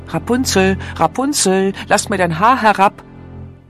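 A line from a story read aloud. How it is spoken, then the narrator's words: Prince calling out. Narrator (German): der Königssohn rief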